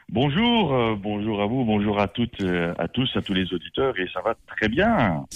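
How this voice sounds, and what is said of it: Belgian French accent. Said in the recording (French): “je suis belge d'origine, hein, ça s'entend à mon accent.”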